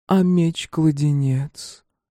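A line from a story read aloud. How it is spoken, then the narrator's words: Sighing. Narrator (Russian): Иван второй раз вздохнул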